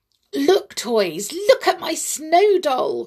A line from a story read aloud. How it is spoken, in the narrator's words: cried Amelia Jane, proud of what she had done